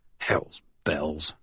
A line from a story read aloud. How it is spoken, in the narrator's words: I muttered